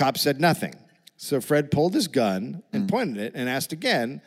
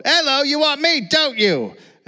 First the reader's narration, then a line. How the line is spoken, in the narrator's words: he yelled